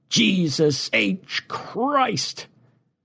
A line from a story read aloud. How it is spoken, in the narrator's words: Far above them, a voice as loud as God's exclaimed